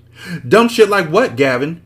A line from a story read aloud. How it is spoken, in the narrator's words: She hollered